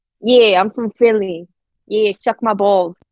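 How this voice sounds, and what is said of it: Attempted Philly accent sounding English. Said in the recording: “Can you do a Philly accent? ... That was definitely like English.”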